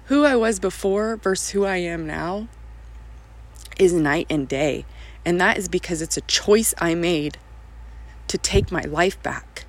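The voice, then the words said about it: Emotional, choked-up voice. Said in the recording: “here I am getting emotional again.”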